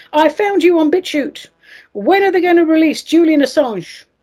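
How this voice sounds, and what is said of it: Put-on London accent. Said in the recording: “it's a lovely London accent.”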